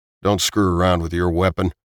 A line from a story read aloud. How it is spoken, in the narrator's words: Tim growled